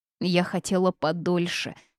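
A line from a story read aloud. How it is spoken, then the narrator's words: Offended declaration. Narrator (Russian): обиженно заявила она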